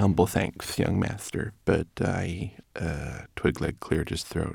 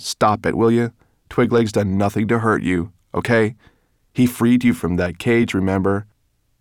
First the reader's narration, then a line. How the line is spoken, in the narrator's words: snapped Ben